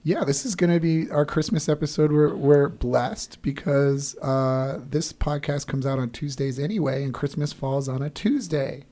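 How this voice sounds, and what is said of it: Hoarse, failing voice. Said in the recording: “we apologize for ... voice ... me losing my voice”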